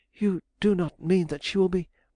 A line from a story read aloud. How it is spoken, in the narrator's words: she cried